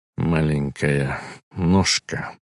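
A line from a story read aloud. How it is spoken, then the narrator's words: Muttering. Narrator (Russian): бормотал он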